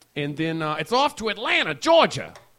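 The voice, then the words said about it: Put-on mismatched regional accent. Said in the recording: “That's not how they say it. That's not the accent that they use in Atlanta, Georgia.”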